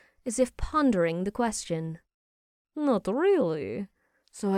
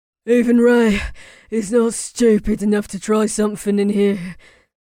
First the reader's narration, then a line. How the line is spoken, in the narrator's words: Beau said while panting